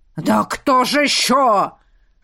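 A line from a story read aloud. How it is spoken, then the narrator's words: Furious roar. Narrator (Russian): взревел Бьорн неистовый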